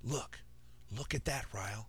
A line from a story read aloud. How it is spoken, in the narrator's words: emphatically whispered